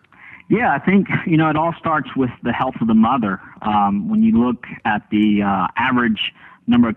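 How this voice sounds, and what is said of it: Slight Southern drawl. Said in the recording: “a little bit of an accent. ... I thought I detected a little bit of a drawl”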